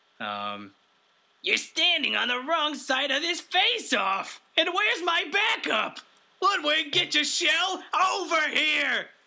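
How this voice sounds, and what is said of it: Generic Koopa cartoon villain voice. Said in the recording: “I'm just going to do another one. That's another generic Koopa voice.”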